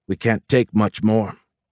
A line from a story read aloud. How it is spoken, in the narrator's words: Massey said coldly